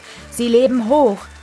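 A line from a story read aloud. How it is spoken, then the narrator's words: Crowd calling out. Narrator (German): rief die Menge ihnen zu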